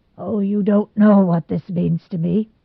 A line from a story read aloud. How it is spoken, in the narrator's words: he said brokenly at last